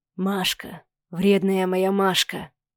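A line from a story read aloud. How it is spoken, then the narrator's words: Hoarse whisper between kisses. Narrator (Russian): Хриплый шепот прерывался поцелуями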